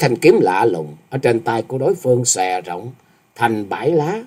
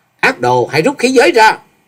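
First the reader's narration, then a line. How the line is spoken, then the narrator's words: Loud shout. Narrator (Vietnamese): quát to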